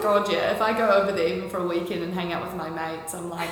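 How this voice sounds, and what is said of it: Strong New Zealand accent. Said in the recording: “I've got a pretty strong Kiwi one now.”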